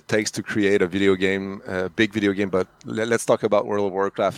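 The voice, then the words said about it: French Canadian accent. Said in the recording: “I'm French Canadian, so sorry for the accent.”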